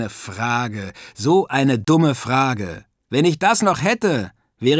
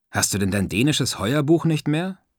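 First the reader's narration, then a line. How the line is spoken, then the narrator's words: Plain. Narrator (German): fragte ich Stanislav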